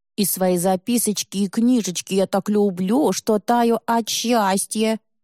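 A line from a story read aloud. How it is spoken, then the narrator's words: Nasty thin mocking voice. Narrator (Russian): Мерзким тонким голосом подражает Игорек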